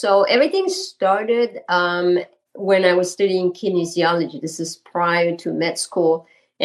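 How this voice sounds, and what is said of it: French Canadian accent. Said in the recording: “my accent is from Quebec. So I'm French Canadian”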